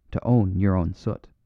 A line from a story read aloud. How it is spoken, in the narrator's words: put in the priest in a low voice